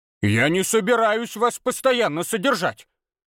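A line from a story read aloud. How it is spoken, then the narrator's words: Loud bark. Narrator (Russian): Громко рявкнула Ирма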